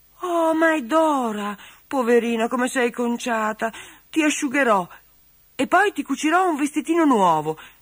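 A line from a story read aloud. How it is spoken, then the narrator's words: Pitying exclamation. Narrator (Italian): esclamò Marilena impietosita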